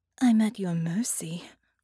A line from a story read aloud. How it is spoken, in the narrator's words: she sighed